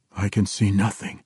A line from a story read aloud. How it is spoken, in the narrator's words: whispered harshly